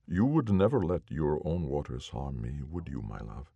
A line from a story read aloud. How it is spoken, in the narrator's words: asked quietly, not really expecting an answer